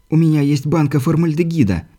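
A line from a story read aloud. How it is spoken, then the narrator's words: Mumbling. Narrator (Russian): промямлил Дэниэльс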